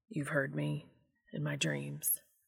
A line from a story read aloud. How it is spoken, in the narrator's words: Dean mumbled